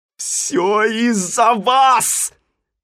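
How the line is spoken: Angry shouting. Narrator (Russian): закричал Симпкинс

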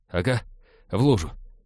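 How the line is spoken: Embarrassed muttering. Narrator (Russian): смущенно пробормотал Натан

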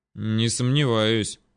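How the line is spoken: Gruff mutter. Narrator (Russian): буркнул Рустам

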